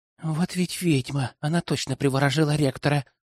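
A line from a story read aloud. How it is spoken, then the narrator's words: Barely audible whisper behind. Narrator (Russian): послышался еле уловимый шепот за спиной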